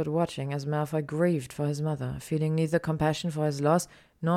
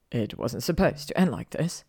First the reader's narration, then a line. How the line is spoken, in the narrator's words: he whimpered, just loud enough for Hermione to hear